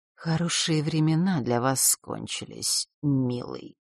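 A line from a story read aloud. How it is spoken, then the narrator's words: Icy whisper. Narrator (Russian): ледяным голосом прошептала Елена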